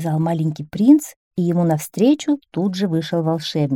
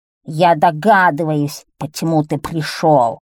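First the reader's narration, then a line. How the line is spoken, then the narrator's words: Thunderous voice. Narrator (Russian): произнес он громовым голосом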